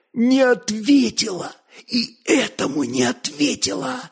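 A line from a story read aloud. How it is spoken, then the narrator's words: Whisper. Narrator (Russian): шептал он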